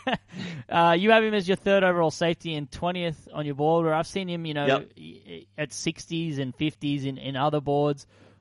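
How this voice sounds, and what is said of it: Speaks with a noticeable accent. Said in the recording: “I've got to be careful with these names with my accent.”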